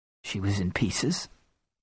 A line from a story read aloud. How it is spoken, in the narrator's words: I croaked